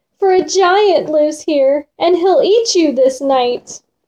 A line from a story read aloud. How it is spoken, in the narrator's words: cried this maid in a fright